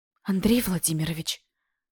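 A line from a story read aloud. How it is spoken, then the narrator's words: Breathless exhale. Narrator (Russian): Выдохнула, не в силах сформулировать сразу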